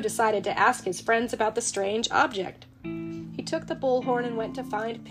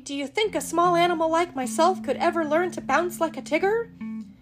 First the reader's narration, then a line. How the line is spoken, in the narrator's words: said Piglet nervously